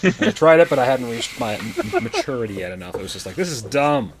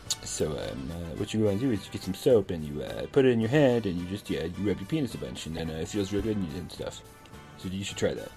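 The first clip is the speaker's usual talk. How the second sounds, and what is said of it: Imitates another person's voice. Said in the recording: “done my impression of the doctor”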